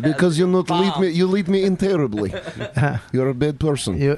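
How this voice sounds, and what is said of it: Put-on Russian accent. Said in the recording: “He's got a Russian voice too, though.”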